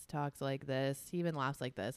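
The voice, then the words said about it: Very monotone voice. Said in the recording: “Super dry humor. Talks in a very monotone voice.”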